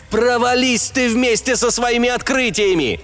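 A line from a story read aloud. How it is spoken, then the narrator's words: Yelling. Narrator (Russian): завопил я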